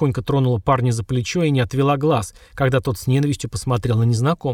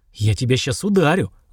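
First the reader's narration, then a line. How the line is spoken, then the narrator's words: Breathless strained through teeth. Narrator (Russian): задыхаясь, выдавил из себя парень, скрипя зубами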